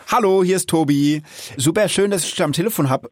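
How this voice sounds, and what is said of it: Rhine-Hessian German dialect. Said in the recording (German): “Rheinfränkisch oder Rheinhessisch müsste das sein... Rheinhessisch? Also Tilman, du bist ja wirklich richtig gut.”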